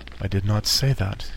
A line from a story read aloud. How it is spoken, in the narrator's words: said